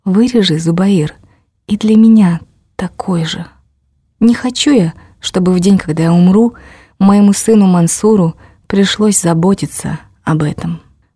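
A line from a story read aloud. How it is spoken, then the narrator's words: Grandmother's quiet request. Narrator (Russian): Бабушка тихо попросила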